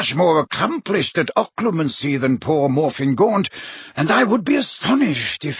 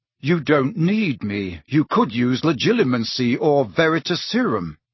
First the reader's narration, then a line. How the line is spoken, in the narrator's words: he said, keeping his voice as respectful as possible